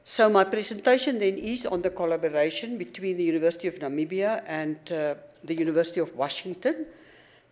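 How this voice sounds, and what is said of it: Speaker's own regional accent. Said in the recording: “please excuse my dialect. You will notice that it's not the way you pronounce the words”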